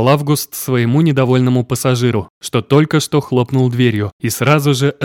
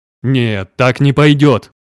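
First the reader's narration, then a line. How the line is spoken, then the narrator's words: Growl. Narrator (Russian): прорычал мой бог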